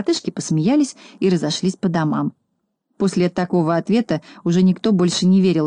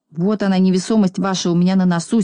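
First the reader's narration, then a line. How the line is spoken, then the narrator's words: Angry. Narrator (Russian): сердито ответил Пончик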